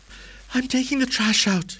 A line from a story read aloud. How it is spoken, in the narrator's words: she wheezed